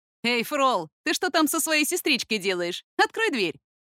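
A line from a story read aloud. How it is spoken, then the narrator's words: Cheerful demanding voice. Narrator (Russian): чей-то голос весело и требовательно произнес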